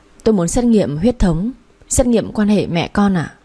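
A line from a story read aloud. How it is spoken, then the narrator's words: Trembling. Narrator (Vietnamese): Tôi run run bảo bác sĩ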